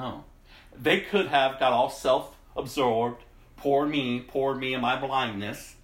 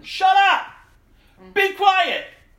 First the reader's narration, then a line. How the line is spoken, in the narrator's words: crowd yelled back